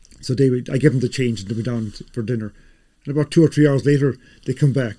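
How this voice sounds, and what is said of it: Irish accent. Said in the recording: “they heard my accent ... So this is a real Irish bar? I said, yes, pal, very Irish bar.”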